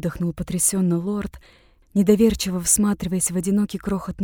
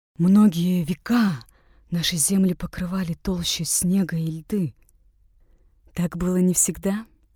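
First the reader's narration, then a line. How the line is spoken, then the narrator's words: Gentle objection. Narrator (Russian): мягко возразила Айла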